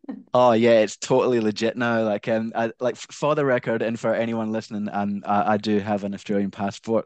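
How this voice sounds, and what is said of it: Scottish accent. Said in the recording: “I'm guessing by your accent you are not actually from Australia ... Uh, originally, I'm from Glasgow, Scotland.”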